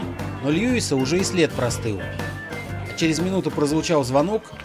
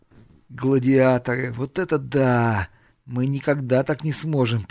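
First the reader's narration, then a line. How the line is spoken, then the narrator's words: Sad statement. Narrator (Russian): печально констатировал Айвен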